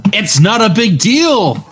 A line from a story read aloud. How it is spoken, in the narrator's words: I screamed back at her